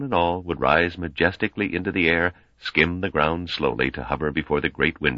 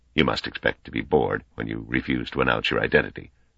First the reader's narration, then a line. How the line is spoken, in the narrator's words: said in a low voice